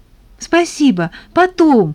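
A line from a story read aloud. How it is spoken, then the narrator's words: Hurried reply. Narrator (Russian): торопливо ответила Тата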